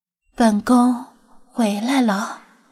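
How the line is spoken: Murmuring. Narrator (Chinese): 菲娜口中喃喃说道

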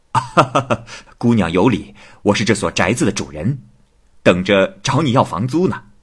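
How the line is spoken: Laughing. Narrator (Chinese): 七生笑着说

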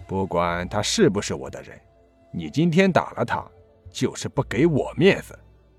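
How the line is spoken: Deep, grave voice. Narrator (Chinese): 程金沉声道

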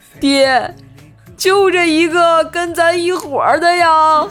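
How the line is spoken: Tearful, on verge of crying. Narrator (Chinese): 眼泪都快流下来了，带着哭腔对锤爸说

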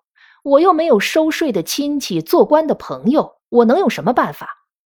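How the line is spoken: Cynical sneering. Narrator (Chinese): 王狗儿此时又成了愤世嫉俗的模样，冷笑着说

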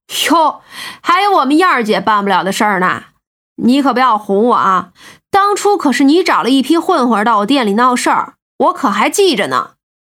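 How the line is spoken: Laughing. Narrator (Chinese): 苗阿飘笑道

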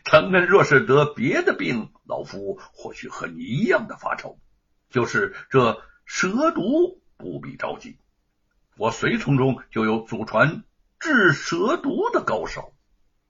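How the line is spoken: Relaxed chuckle. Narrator (Chinese): 蔡昂呵呵一笑

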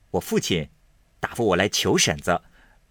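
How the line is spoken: Laughing. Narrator (Chinese): 贾蓉笑道

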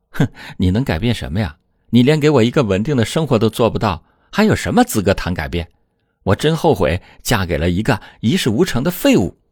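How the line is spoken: Scornful sneer. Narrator (Chinese): 阿兰却冷笑一声说

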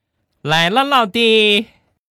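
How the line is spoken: Warm, enthusiastic call. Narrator (Chinese): 小家伙 饱含热情的喊了一句

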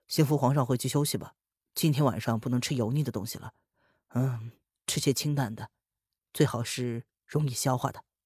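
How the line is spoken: Calm, flat. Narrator (Chinese): 淡淡的说着

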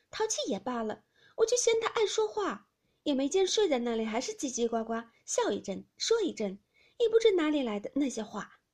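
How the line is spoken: Laughing. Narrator (Chinese): 迎春笑道

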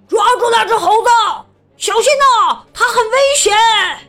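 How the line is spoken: Loud alarmed shout. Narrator (Chinese): 有人大声叫了起来

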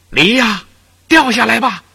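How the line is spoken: Shouted. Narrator (Chinese): 他就大叫

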